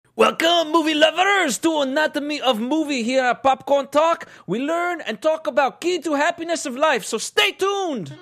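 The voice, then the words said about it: Put-on French accent. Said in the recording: “the last French accent I'll do in a while”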